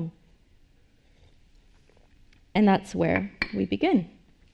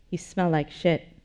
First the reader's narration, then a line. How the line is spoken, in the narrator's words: Sylvia said